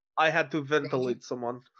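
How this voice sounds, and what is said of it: Put-on Georgian accent. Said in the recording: “Your accent is Georgian?”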